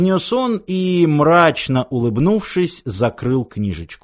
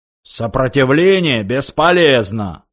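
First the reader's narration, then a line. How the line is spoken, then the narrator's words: Guard's roar. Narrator (Russian): взревел охранник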